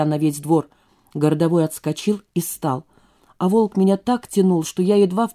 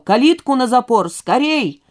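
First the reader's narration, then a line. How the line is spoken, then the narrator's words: Sudden yell. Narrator (Russian): вдруг кто-то заорал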